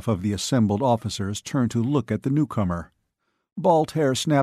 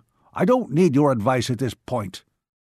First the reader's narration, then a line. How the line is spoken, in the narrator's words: his father snapped